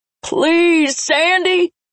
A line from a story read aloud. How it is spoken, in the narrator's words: He shouted, causing everyone in the room to slap their hands over their ears